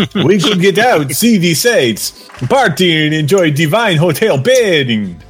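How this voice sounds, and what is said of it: Cheesy B-movie Dracula vampire voice. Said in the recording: “as a cheesy B-movie vampire Dracula ... Oh, so Belosi ... This is the vampire form of Shatner.”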